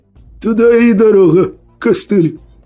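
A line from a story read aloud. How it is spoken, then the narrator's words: Hoarse laughing jeer. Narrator (Russian): Сипло поддержал смехом своего подельника сутулый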